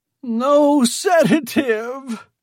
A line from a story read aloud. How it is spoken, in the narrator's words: screamed Sale